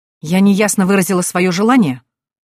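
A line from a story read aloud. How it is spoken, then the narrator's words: Irritated growl. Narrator (Russian): Раздраженно рыкнув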